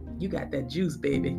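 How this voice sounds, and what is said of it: Put-on New Orleans accent. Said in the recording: “I hear a lot of people down here from New Orleans, and I just love that accent, baby. So I like to say it every now and then.”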